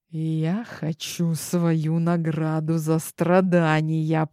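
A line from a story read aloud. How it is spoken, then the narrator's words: Hissing duke. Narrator (Russian): прошипел герцог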